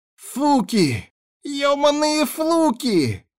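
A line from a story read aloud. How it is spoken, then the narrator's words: Groaning, cursing, spitting blood. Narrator (Russian): стонал и матерился Тибальд, сплевывая кровь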